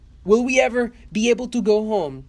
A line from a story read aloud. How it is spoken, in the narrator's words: cried the people in despair